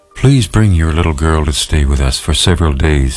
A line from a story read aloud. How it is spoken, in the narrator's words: said